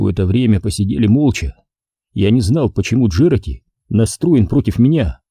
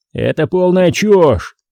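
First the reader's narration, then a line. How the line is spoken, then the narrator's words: Barked. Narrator (Russian): рявкнул Джерати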